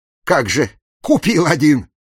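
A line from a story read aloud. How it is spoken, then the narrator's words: Snapping retort. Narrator (Russian): огрызнулся Серегин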